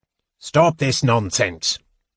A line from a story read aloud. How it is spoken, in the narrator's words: said the old magician in a strong, stern voice